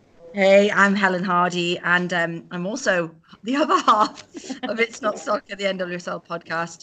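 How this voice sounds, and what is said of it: British accent. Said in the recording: “We're both British girls, as you can probably hear from our accents”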